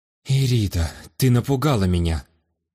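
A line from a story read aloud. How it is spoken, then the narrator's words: Relieved exhale, aristocrat. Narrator (Russian): Облегченно выдохнул аристократ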